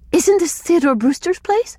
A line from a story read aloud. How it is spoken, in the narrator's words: Aloud she gasped